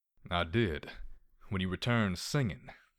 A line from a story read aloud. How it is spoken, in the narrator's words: replied with a soft chuckle